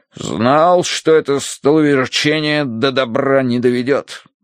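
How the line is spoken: Grumbling. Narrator (Russian): проворчал полковник

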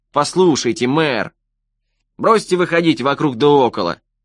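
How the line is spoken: Gloomy declaration. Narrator (Russian): мрачно заявил Престон

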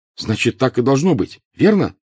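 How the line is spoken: Fervent exclamation. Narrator (Russian): горячо воскликнул Гарри

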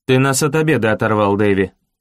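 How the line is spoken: Cold. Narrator (Russian): холодно сказал Киллиан

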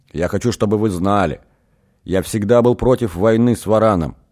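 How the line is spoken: Sudden outburst. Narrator (Russian): неожиданно выкрикнул секретарь жезла

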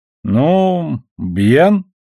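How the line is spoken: Insincere drawl. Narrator (Russian): протянул Эванс так, словно сказать хотел совсем другое

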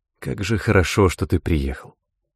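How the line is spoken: Whisper. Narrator (Russian): Карен шепнув

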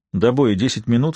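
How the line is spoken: Plain. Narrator (Russian): сказал Эндер

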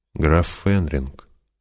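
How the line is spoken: Quiet reply. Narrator (Russian): тихо ответила она

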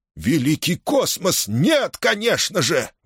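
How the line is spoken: Exclaimed. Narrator (Russian): воскликнул Тушал

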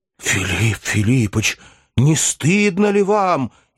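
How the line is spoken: Sincere, fiery exclamation. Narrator (Russian): искренне воскликнул пламенный Барменталь

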